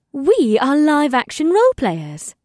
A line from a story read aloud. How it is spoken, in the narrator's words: Ipsith added in a bright tone